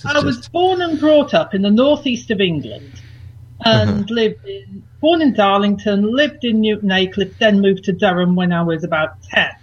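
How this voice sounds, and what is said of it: Mixed northern English accent. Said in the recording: “several accents in one sentence ... her accent is a bit muddy, is what it is. It's just a mutt of accents.”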